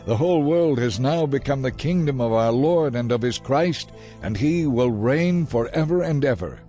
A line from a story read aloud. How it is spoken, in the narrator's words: loud voices shouting in heaven